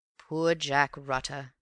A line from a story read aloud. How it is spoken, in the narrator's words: said Raffles with a sigh